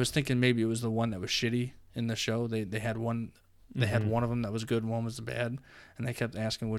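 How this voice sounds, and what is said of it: Usual voice. Nothing is said of it.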